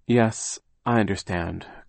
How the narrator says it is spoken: Klaus said, sighing

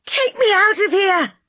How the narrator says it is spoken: I screamed

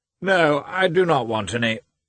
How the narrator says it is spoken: he shouted again

